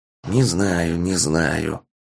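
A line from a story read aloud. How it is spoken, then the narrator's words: Fervent whisper. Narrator (Russian): горячо зашептал телепат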